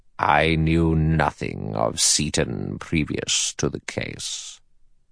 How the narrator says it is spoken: In a clear, cold voice, the judge said

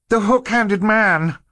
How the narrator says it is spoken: Violet shouted

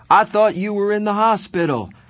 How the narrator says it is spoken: I yelled

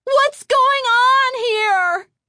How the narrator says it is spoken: Chris cried aloud

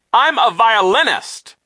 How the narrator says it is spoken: Nero cried

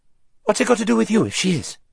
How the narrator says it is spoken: said the strange rider fiercely

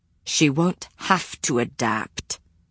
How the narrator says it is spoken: Matthew said through gritted teeth

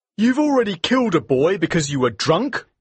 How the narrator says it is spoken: cried

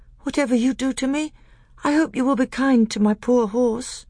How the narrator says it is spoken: said Caspian in a feeble voice

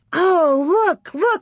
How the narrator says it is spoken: shouted, laughing

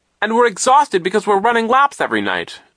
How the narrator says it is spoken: Klaus cried

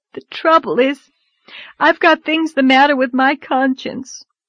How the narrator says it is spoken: sobbed Anne

